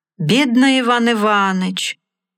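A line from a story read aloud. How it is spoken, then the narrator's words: Sad, sighing. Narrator (Russian): говорил хозяин, печально вздыхая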